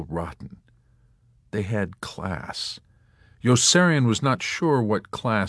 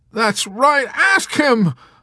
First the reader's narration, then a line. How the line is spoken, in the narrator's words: Hungry Joe exclaimed in a rage